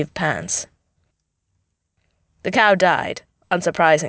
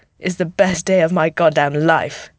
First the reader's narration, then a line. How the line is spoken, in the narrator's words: says Bucky, sounding a little choked up